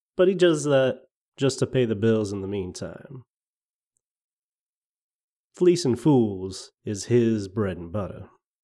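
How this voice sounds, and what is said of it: Put-on Southern US accent. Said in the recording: “Is ... from Georgia? ... I'm digging this accent. It was my favorite part of House of Cards.”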